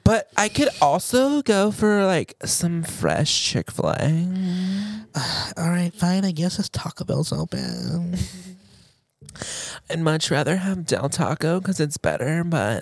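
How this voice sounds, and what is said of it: Good Valley Girl accent. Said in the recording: “you do a really good Valley Girl accent.”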